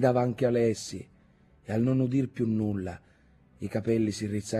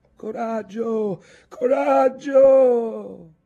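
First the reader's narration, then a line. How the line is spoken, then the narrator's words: Shouting from shore. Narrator (Italian): gridavano loro le guardie dalla riva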